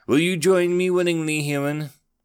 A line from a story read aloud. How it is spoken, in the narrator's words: He sighed